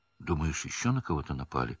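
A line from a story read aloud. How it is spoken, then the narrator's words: Frightened question. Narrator (Russian): испуганно спросил Рон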